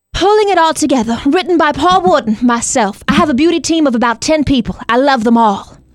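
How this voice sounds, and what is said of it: Overacted impression of Paul Wharton. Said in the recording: “your Paul impression ... It's just his overacting”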